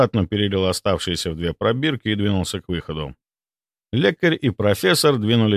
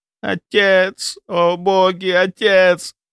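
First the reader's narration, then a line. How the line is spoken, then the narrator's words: Sobbing. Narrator (Russian): Авраам Давидович начал рыдать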